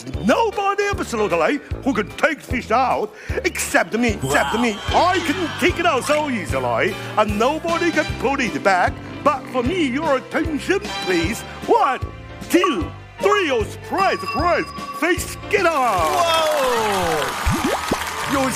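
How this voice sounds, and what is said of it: Theatrical, Broadway-style sing-song delivery. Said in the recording (Chinese): “有腔有调的，还有点那个百老汇那个味道...就是戏剧感很足”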